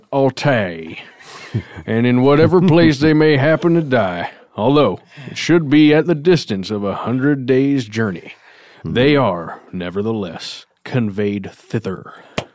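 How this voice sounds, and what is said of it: Smooth theatrical put-on narrator accent. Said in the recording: “that accent totally had me convinced you were about to go, it's been 1 week ... the precision, it's doing it drips like butter ... It's the true voice of history”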